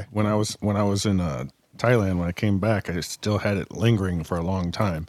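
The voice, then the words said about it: Hoarse voice from a cold. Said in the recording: “I had a cold all week, and that's why my voice is all messed up.”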